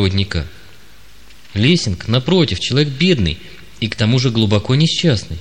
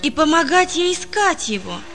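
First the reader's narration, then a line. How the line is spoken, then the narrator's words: Boy exclaiming. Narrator (Russian): воскликнул мальчик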